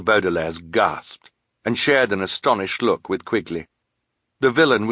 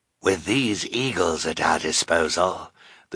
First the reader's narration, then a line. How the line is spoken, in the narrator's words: the sinister man said in his hoarse voice